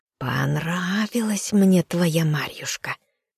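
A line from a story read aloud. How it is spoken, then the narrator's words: Spider's hiss. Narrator (Russian): прошипела паучиха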